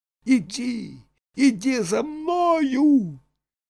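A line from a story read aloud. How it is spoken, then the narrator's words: Boy shouting. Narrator (Russian): Мальчик крикнул Пусторосливу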